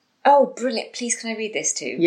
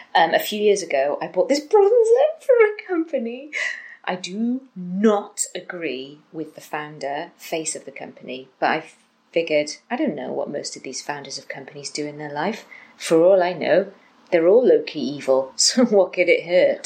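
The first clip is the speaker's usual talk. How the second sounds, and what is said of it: Imitating Tangina from Poltergeist. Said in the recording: “I want to read it in an accent, but I don't think I'll do it justice ... I want to speak in the accent of Tangina from Poltergeist”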